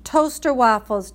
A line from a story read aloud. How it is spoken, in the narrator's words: Dad yelled louder